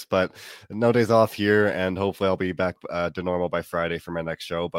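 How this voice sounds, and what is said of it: Sick, unwell-sounding voice. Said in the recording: “tell by my voice, I'm still pretty sick, like I was yesterday, maybe even worse”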